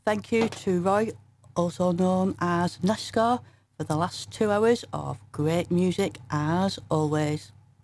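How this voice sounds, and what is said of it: Broad northern English accent. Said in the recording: “hence my broad northern accent”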